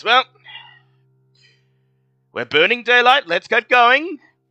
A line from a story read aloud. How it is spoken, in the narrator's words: sighs and he says